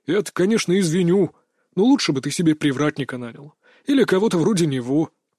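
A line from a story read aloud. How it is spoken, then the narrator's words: Grumbling while leaving. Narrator (Russian): проворчал, уходя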